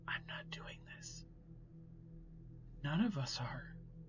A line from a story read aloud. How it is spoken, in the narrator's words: Emma's face paled as she whispered